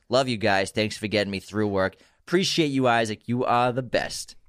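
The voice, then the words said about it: Put-on Boston accent. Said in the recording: “Great Boston accent. I like how you become a different person ... the way your mouth moves is different”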